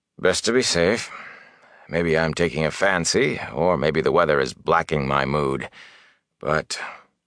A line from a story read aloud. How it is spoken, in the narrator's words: sighed